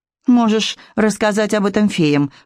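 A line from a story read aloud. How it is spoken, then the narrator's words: Snorting. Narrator (Russian): фыркнула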